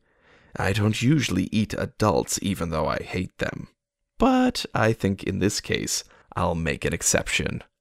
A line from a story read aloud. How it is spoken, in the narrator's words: the Earl King said softly